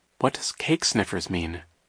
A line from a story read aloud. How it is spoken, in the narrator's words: Violet murmured to Klaus